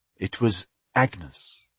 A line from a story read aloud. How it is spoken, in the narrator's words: Ellen said softly